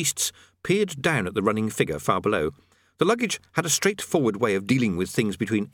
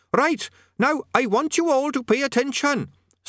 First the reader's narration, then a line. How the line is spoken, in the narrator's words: squeaked Quez Overquattle, cupping its tiny hands around its main mouth in an effort to be heard